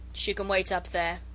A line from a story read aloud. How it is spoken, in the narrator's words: he said with a grunt